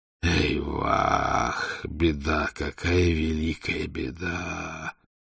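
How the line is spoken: Groaning. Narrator (Russian): простонал Орду

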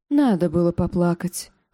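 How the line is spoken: Sigh. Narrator (Russian): вздохнул Ксара

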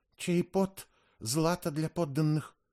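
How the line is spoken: Frightened whisper. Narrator (Russian): Иолента, от страха добавила шепотом

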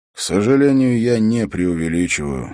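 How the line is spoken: Sigh. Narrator (Russian): вздохнул он

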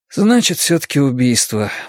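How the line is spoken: Sighing. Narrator (Russian): вздохнул Фриппе

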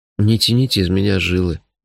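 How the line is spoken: Gloomy request. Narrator (Russian): мрачно попросил я

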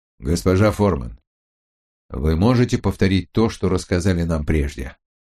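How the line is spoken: Plain. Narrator (Russian): спросил Бауэр

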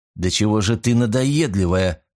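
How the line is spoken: Grumbling. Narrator (Russian): проворчал я

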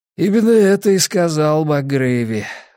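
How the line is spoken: Sighing. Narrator (Russian): вздохнул Анджели

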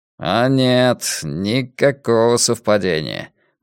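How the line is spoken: Grim. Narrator (Russian): мрачно проговорил Ломбард

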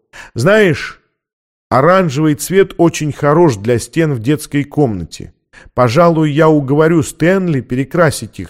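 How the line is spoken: Plain. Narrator (Russian): сказала Дорис

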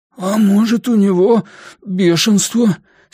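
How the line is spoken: Husky voice. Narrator (Russian): сиплым голосом предположил Бенни

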